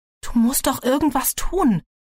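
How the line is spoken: Pleading. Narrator (German): flehte Kylie ihre Mutter an

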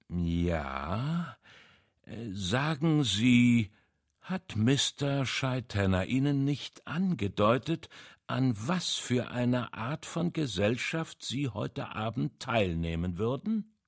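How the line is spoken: Slow speech. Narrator (German): Poirot sagte langsam

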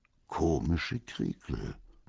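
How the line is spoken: Muttering. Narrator (German): murmelte

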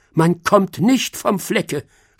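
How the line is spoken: Groaning snail. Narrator (German): stöhnte die Schnecke

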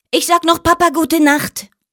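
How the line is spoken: Little bear calling out. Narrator (German): ruft der kleine Bär

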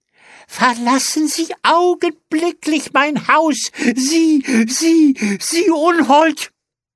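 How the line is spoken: Shrieking. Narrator (German): kreischte sie

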